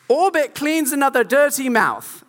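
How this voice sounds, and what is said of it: Put-on British accent. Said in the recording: “That is my best British accent”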